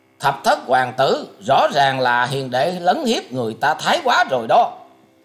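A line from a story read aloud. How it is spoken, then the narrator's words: Sudden shout. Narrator (Vietnamese): Ngũ hoàng tử chợt quát lên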